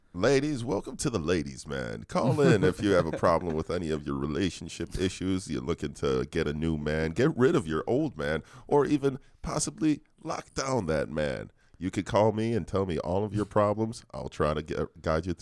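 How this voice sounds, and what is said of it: Put-on sexy voice. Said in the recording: “you've been working on your sexy voice”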